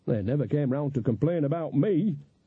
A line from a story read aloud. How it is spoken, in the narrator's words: said Nanny happily